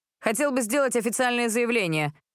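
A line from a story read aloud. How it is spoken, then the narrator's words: Shrill squeal. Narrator (Russian): взвизгнул бармен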